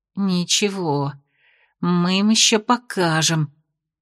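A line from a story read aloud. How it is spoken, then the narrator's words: Muttering through teeth. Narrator (Russian): процедила она себе под нос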